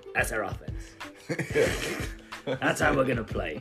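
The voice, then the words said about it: Imitates another person's gravelly voice. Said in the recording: “That's a really bad impression of Fizdale ... He has this kind of like gravelly kind of...”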